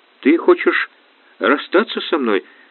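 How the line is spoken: Trembling voice. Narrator (Russian): дрожащим голосом спросила Наташа

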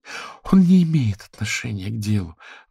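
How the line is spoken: Sighing. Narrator (Russian): вздохнула Ронда

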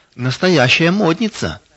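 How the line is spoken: Child's exclamation. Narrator (Russian): воскликнула маленькая Майя

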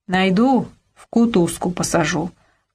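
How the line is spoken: Menacing promise. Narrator (Russian): грозно обещал Гераскин

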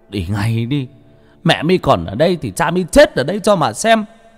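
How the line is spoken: Tearful desperate shout. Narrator (Vietnamese): Ông phải dậm chân mà hét lên trong nước mắt

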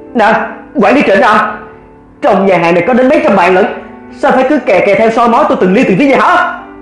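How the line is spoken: Furious bold retort. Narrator (Vietnamese): Vì mình nộ khí đầy người, liền lấy hết dũng khí để mà quát lại

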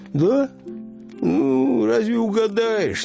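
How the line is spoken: Uncertain fisherman. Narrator (Russian): неуверенно произнес рыбак

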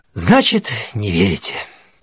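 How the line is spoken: Relieved sigh. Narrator (Russian): сказал он и облегченно вздохнул

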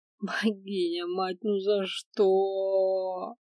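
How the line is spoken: Inner groan. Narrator (Russian): мысленно простонала я

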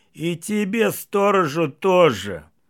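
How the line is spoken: Howling wail. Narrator (Russian): Василий взвыл

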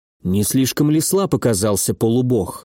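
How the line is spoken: Muttered. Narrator (Russian): пробормотал Владислав

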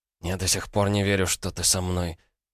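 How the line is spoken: Whispered. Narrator (Russian): прошептал Илья

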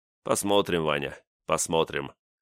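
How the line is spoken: Noncommittal snort. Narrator (Russian): неопределенно хмыкнул Чайка

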